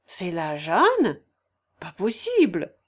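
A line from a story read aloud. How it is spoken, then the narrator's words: Exclaimed. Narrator (French): s'écria madame de Charmois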